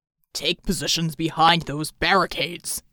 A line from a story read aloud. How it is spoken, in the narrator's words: Bulwark bellowed